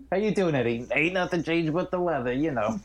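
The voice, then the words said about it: Unplaceable mixed accent, Chicago-South African. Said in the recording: “Whatever fucking accent he's doing ... It's like Chicago / South African ... I truly couldn't place this accent. It's every accent.”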